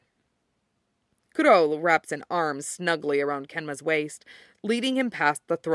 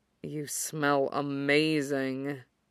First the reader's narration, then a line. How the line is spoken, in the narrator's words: Kuro rumbles against him